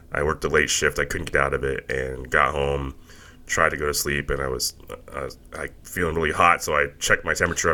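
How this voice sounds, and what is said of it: Sick, under-the-weather voice. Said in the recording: “I'm a little under the weather. You can probably hear it in my voice.”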